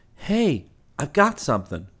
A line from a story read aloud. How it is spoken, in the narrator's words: he shouted